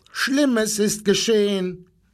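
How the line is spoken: Animals shouting. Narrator (German): schrien die Tiere

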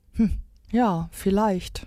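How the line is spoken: Squirrel sighing. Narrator (German): seufzte das Eichhörnchen

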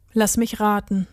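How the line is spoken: Plain. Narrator (German): sagte Till

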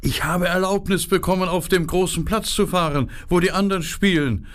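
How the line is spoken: Shouting into ears. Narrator (German): Er schrie Gerda in die Ohren hinein

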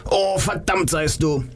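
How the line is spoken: Shout. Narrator (German): schrie er

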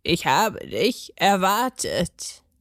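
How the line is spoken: Croaking upward. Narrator (German): krächzte es zu ihm hinauf

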